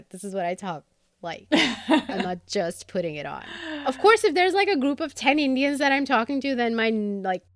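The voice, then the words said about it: American accent. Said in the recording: “who am I with this fake American accent? ... I've had this accent since I was little ... So this is my accent.”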